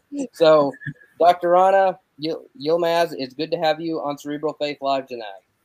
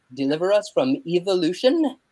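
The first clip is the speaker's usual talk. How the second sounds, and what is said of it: Put-on English accent. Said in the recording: “it only works if you do it with an English accent.”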